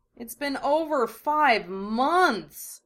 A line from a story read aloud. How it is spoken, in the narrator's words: Naruto groaned